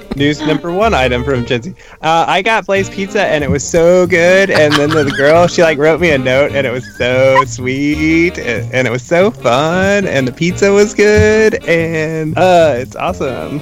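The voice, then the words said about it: Imitates another person's voice. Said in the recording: “best Gen impression”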